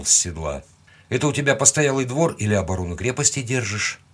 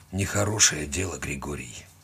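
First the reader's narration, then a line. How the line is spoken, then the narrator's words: Forced out reluctantly. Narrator (Russian): Наконец выдавил он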